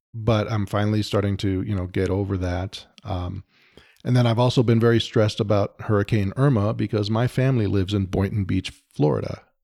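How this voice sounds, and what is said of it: Slightly hoarse voice. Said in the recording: “I've been struggling with a cold, a really bad sore throat and a cough for about a month... I probably still sound a little hoarse.”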